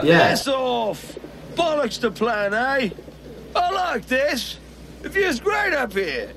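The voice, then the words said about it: Bad fake English accent. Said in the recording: “the English enforcer bad guy ... one of the worst English accents I've ever heard”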